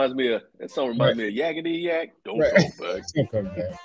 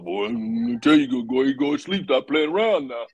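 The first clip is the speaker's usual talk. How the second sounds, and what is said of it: Imitates a grandfather's voice. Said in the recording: “talking like my grandfather”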